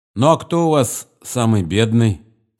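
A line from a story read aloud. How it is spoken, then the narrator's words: Plain. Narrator (Russian): спросил Нехлюдов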